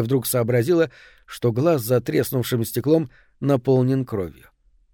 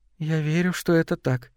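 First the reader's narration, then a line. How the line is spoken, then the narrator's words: Quiet. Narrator (Russian): тихо произнесла Мэри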